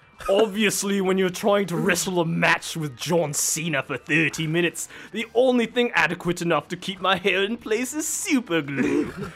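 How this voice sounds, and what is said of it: Imitated Cockney accent. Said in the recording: “That Cockney accent.”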